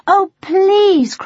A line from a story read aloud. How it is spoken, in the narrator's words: cried Harmony